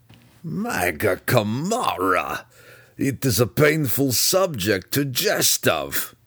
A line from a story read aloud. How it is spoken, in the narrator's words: Belwar replied, though he chuckled in spite of himself even as he spoke the words